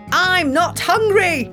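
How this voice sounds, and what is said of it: Angry voice. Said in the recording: “in an angry voice.”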